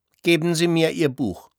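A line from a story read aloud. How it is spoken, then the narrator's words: Said coldly. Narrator (German): sagte kalt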